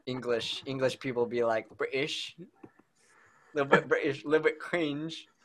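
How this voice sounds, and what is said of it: Put-on British accent. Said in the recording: “a British accent”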